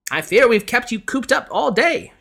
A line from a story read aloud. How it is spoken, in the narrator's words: she exclaimed